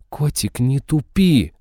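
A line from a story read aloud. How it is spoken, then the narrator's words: Growled. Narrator (Russian): рыкнула Изабелла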